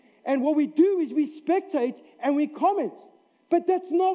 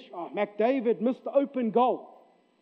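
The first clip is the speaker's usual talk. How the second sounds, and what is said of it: Sarcastic put-on accent. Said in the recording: “That's not your accent, I know. But that's usually my accent when I want to be sarcastic.”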